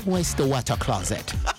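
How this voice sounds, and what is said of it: Mock British accent. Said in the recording (French): “We don't feel the British accent... You were talking like that.”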